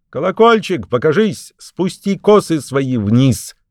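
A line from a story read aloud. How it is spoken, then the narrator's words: Witch calling upward. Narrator (Russian): волшебница снизу вверх крикнула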